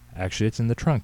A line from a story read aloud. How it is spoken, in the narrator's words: he said